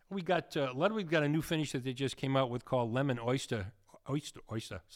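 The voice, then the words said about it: New England accent. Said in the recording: “Sounds like I come from New England, which I do... your whole accent came out for a second”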